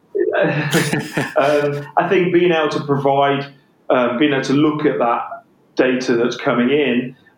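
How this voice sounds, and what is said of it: English accent. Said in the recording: “in my English accent”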